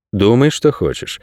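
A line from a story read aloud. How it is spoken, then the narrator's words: Calm. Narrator (Russian): спокойно ответил Найрат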